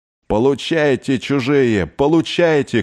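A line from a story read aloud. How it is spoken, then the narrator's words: Shouting. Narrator (Russian): кричала Ольга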